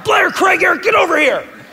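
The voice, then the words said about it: Angry shouting. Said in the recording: “I'm yelling. ... he would shout ... So angry.”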